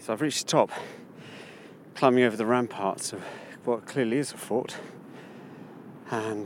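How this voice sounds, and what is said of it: Breathless, out of breath. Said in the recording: “Forgive my out of breathness... I'm a bit out of breath.”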